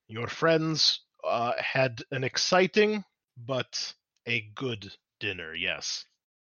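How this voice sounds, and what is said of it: Character voice with Estalian accent. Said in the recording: “he's got his full Estalian accent going on”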